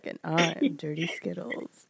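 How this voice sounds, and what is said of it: Sultry phone-sex operator voice. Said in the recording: “I sounded like a sex phone operator”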